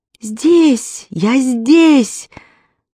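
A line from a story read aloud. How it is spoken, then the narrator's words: Silent inner shout. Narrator (Russian): безмолвно закричал я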